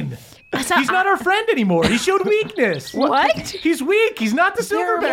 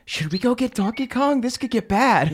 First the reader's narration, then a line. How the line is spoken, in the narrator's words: whispered